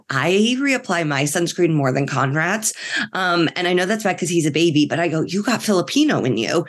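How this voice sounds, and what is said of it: Sick, under-the-weather voice. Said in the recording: “as you can hear in my voice, I'm a little under the weather ... It was a flu and then it turned into a cold”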